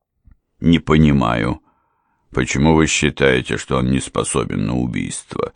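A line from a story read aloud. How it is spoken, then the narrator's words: Sullen growl. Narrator (Russian): угрюмо прорычал Пенриф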